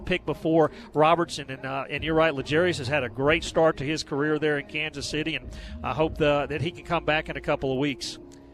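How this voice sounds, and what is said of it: Southern American accent. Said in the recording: “somebody with a Southern accent”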